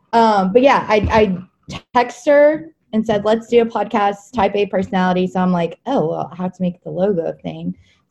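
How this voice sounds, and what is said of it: Deep, rough voice from illness. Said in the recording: “I sound like Big Mac Daddy right now because I'm sick ... my voice sounds like I'm driving the dump truck around your neighborhood or something”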